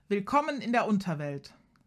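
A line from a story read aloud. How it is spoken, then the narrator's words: Booming voice. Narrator (German): sagt Kaya mit dröhnender Stimme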